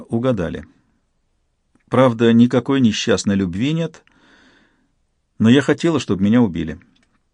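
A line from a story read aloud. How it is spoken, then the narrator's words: Calm. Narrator (Russian): Айвика спокойно сказала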